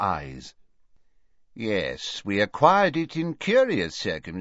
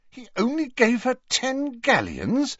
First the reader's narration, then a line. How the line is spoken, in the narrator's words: said Harry indignantly